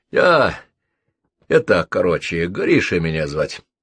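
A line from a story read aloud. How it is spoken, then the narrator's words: Hoarse voice. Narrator (Russian): представился хриплый собеседник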